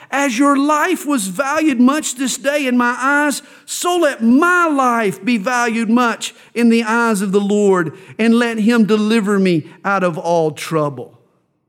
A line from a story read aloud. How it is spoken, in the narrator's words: David had cried out